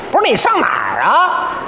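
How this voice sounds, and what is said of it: Beijing dialect voice. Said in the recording (Chinese): “要用北京话呢 ... 北京话导航一开”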